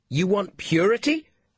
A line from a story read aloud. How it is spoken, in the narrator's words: Kaa shouted through the crack in the door